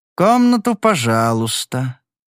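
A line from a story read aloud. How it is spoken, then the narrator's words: Grumbling plump man. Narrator (Russian): проворчал толстячок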